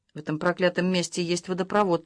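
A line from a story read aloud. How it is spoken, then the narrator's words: Muttered. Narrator (Russian): пробормотал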